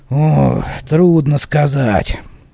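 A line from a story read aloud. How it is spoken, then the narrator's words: Grumbled. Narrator (Russian): пробурчал Ильма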